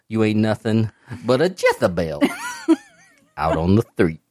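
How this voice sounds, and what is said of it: Dusty Rhodes impression. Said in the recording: “everybody in the universe has a Dusty Rhodes impersonation”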